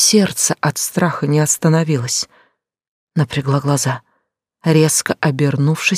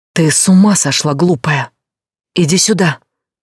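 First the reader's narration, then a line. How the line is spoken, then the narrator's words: Loud whisper from behind. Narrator (Russian): громкий шёпот позади себя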